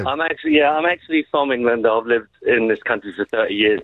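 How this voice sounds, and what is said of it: English accent. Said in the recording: “Look at the accent. The accent.”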